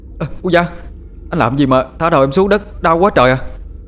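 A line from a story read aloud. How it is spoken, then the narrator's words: Boy crying in pain. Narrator (Vietnamese): Thằng Tế đau quá la lên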